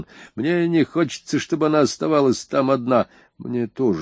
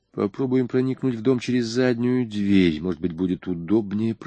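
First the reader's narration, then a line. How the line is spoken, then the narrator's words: Whispered. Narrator (Russian): прошептал я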